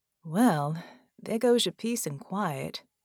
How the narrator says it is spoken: she drawled

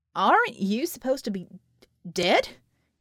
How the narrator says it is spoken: he stammered

